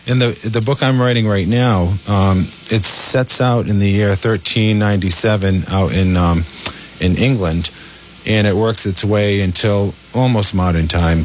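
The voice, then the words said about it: New England Rhode Island accent. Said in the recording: “my New England accent or Rhode Island accent”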